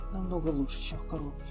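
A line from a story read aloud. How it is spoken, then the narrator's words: Sleepy mumble. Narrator (Russian): полусонно пробормотала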